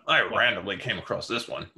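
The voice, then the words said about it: Imitates another person's voice. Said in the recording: “do an impression of you”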